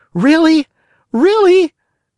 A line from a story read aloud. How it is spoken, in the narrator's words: cried the Marionette, jumping around with joy